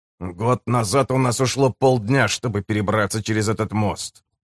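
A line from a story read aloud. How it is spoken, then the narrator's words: Muttering man. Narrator (Russian): пробормотал мужчина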